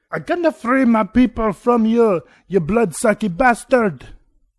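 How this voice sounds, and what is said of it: Put-on Mexican accent sounding Italian. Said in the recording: “my Mexican sounds a little Italian”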